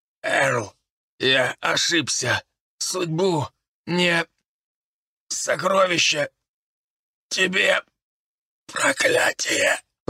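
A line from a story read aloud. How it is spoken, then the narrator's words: Barely audible wheeze. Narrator (Russian): Прохрипел он еле слышно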